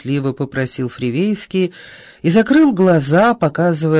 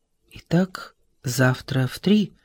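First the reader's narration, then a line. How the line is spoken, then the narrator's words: Quiet question. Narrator (Russian): спросил Исаев тихо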